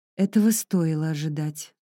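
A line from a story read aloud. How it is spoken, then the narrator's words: Sighing. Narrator (Russian): Грейс вздохнула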